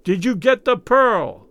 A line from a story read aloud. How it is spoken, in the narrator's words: he yelled in Raoul's ear